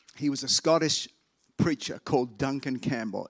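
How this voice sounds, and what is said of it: Strong, hard-to-understand accent. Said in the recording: “If you thought my accent is hard to understand”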